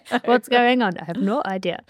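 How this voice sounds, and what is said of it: Put-on German accent. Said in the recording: “That was my German accent.”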